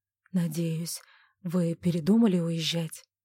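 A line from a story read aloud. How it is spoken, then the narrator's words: Quiet question. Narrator (Russian): тихо спросил Клервуд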